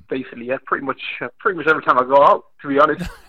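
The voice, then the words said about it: Leicester English accent. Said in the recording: “your Leicester accent”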